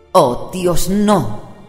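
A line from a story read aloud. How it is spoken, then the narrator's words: Mother exclaiming. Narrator (Spanish): exclamó su madre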